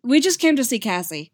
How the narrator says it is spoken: Steve blurts

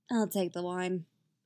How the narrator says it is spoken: she says a little lazily

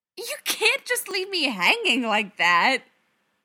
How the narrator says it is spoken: Darcy squawks indignantly

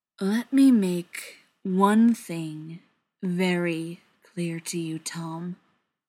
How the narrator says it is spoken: Brendan said slowly

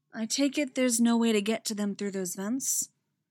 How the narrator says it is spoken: she says, her voice still gentle and full of sympathy

